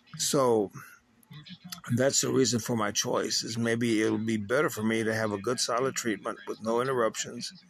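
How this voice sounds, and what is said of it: Strained voice starting to crack. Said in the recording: “my voice is starting to crack ... my vocals are starting to get shredded”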